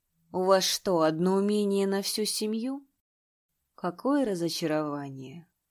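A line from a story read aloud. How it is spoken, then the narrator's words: Soft. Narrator (Russian): Третий принц мягко произнес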